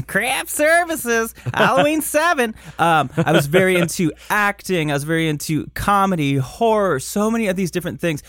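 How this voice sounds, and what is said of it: Michigan accent. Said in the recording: “My Michigan accent is like ... it's coming out ... today.”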